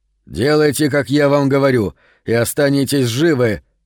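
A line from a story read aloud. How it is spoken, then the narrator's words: Barking. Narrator (Russian): рявкнул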